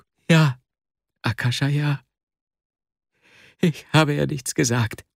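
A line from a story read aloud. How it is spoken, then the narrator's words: Tearful, choked interruption. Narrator (German): unterbrach ihn Wasja mit tränenerstickter Stimme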